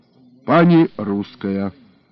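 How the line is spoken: Old man's snort. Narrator (Russian): хмыкнул старик

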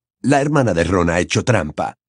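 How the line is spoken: Snapped. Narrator (Spanish): espetó McLaggen

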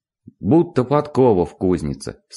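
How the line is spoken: Plain. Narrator (Russian): сказал он тогда

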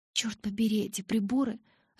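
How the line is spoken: Annoyed muttering. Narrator (Russian): раздосадованно бормотала я

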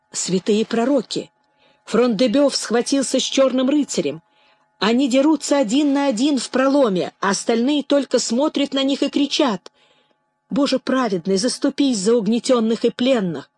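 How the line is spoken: Exclaimed. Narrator (Russian): она воскликнула

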